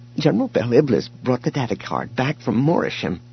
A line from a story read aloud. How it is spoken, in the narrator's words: Kent said, his voice trembling now, too